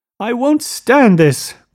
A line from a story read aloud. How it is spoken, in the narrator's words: cried Daisy